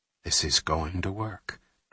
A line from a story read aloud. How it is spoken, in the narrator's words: Jack said quietly to himself